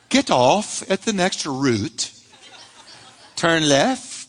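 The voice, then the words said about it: Put-on British woman's accent. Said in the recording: “a woman's voice who is British ... it's the British accent. I just like the British accent.”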